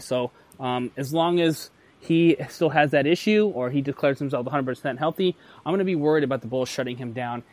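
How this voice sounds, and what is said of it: Rushed, fast, possibly breathless speech. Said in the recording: “Do I sound like I'm out of breath, by the way? ... Yeah, you were going pretty fast there through all your picks.”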